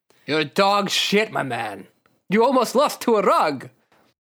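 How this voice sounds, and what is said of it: Count Chocula vampire accent. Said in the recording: “I'm giving him a Count Chocula accent.”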